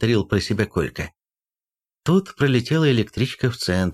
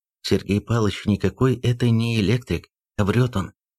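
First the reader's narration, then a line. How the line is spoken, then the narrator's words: Quick quiet whisper. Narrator (Russian): быстро тихо зашептал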